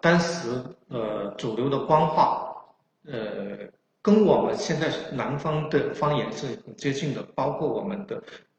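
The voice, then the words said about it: Chaoshan-accented non-standard Mandarin. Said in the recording (Chinese): “潮汕人，呃，普通话说的太不普通了...有发音不准确的地方...大家也可以把我说的口音理解成宋朝的普通话”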